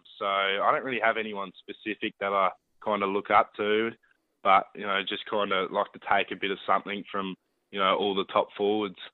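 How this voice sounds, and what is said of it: South Australian accent. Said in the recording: “You got a very South Australian accent coming through ... great to have that accent”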